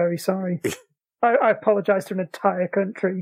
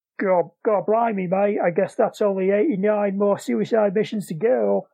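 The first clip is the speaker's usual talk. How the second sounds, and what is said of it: Bad put-on Australian accent. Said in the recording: “That was a bad Australian accent.”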